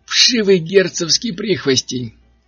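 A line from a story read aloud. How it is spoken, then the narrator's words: Shout. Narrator (Russian): крикнул он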